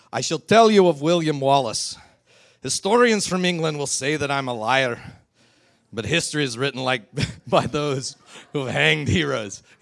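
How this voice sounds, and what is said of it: Put-on Scottish accent. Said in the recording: “that's about as far as I can take my Scottish accent before it starts turning into like this amalgam of Spanish and Australian and Universal International”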